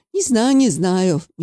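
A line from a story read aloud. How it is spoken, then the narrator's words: Uncertain drawl. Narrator (Russian): неуверенно протянул Валерий Игнатьевич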